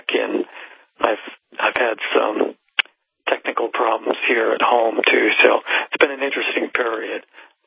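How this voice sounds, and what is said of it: Voice not yet recovered. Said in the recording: “My voice still hasn't recovered from my surgery, so I'm looking forward to the day I can get my real radio voice back”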